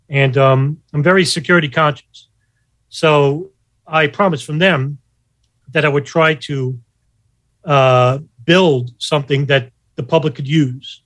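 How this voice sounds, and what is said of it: Pronounced New York accent. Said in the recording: “the sound of my voice, because I have a New York accent, it's very pronounced”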